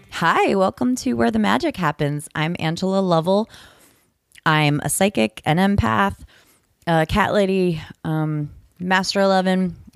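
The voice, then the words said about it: Congested, stuffy voice. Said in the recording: “I have a cold right now, so I hope you don't mind that I'm sucking a cough drop.”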